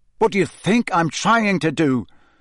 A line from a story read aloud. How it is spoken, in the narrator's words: said Harry angrily